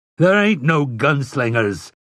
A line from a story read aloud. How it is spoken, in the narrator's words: Overholzer roared